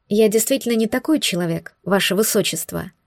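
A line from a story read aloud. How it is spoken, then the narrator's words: Quiet. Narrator (Russian): тихо ответила Вудварду Пассету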